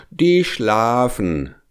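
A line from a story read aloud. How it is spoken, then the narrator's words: Rooster calling down. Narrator (German): rief der goldene Hahn herunter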